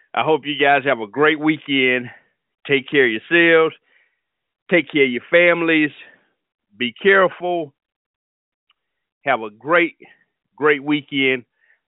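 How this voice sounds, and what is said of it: Out of breath, panting speech. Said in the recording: “I'm out of breath. I've been dancing so hard.”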